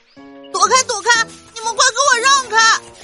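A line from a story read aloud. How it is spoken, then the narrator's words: Shouting while running. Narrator (Chinese): 小黄羊，一边跑一边喊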